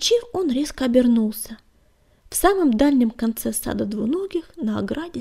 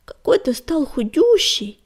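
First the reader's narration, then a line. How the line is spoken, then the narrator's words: Exclaiming. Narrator (Russian): воскликнула она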